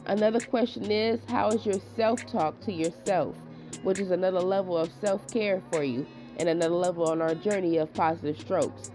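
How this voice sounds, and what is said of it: Sick voice from a cold. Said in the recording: “I'm still getting over my cold. So please bear with me if my voice is going in and out.”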